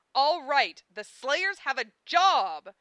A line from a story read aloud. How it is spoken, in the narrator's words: I cried